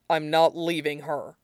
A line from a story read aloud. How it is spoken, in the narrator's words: Wuyin says gruffly